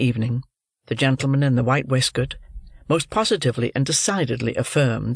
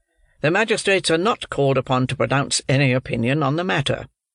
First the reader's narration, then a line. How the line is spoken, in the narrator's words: said the second old gentleman, sharply